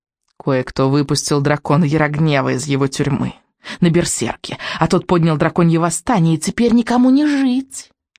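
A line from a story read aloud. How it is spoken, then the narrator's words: Hissed, witch. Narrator (Russian): прошипела ведьма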